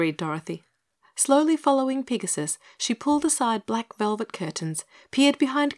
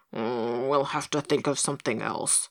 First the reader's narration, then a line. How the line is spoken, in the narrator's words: grumbled the pig